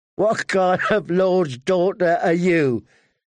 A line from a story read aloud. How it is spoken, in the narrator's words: He said, laughing